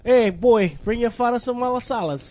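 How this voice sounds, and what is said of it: Put-on Italian accent. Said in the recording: “You sounded Italian. ... Like you just moved here.”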